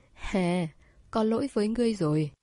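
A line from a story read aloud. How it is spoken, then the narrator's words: Faint dry laugh. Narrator (Vietnamese): cười nhạt một tiếng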